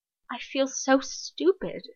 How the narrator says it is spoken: she says, so softly she's almost whimpering

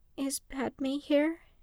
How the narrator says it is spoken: Skywalker asked quietly

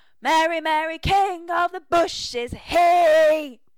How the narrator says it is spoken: Pete hollers

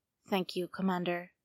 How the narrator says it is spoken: the Jedi says quietly

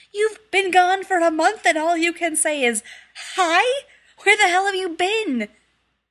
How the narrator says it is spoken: felt something horribly scathing rising in his throat like a scream, but said sadly

